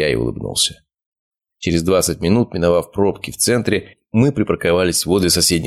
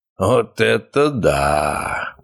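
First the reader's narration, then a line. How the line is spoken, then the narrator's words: Drawn-out amazed drawl. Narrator (Russian): протянул отец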